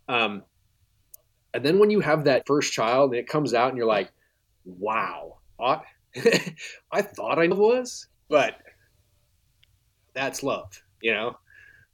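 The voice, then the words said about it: Choked-up, emotional voice. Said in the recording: “getting a little choked up.”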